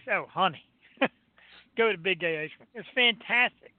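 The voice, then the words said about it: Exaggerated camp flamboyant voice. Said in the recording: “in my big gay voice.”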